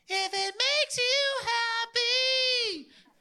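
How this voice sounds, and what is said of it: Sings, imitating a singer. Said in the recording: “my impersonation of Sheryl Crow. And the reason why I'm not on the worship team.”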